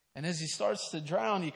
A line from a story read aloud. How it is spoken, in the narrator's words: he cries out